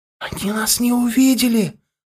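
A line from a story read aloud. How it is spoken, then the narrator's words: Delighted whisper. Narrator (Russian): восторженно зашептал Мозайка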